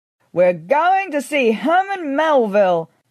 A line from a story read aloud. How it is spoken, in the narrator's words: I shouted, jumping up and down